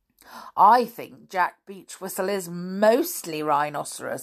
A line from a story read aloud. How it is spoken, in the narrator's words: chuckled